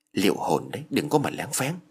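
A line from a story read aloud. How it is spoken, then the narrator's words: Sharp warning whisper. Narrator (Vietnamese): thì thầm vào tai của Phước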